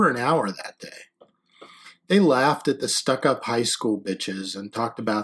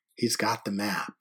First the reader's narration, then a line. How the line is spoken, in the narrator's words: said softly